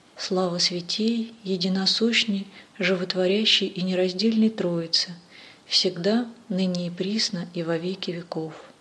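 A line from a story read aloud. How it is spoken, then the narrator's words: Pleasant prayerful proclamation. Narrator (Russian): батюшка своим приятным молитвенным голосом провозгласил слова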